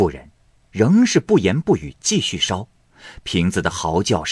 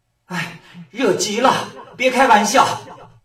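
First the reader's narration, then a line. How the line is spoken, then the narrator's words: Fox shouting loudly. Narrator (Chinese): 瓶子渐渐热了，狐狸在里面高声叫道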